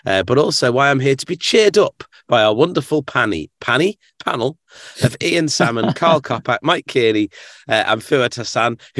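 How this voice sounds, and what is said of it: Slightly cracky, ill-sounding voice. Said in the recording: “my voice is a little bit cracky”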